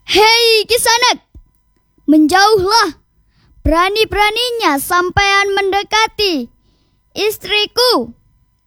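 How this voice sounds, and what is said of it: Loud angry shouting. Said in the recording (Indonesian): “Teriak ... suara lantang”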